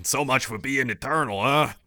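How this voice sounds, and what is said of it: Bad cartoon character impression. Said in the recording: “terrible Oolong impression”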